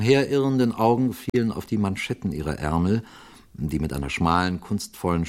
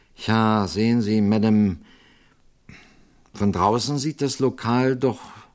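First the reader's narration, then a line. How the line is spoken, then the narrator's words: Slow hesitant, thoughtful. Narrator (German): den Priester offenbar recht nachdenklich, und er antwortete nur sehr langsam und zögernd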